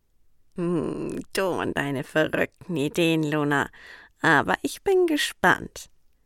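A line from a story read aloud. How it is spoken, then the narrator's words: Purring cat. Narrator (German): schnurrte der Kater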